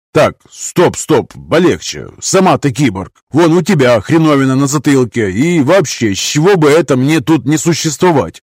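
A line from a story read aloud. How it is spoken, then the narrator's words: Gruff tone hiding fear. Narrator (Russian): За грубоватым тоном Гай скрывал глубинный страх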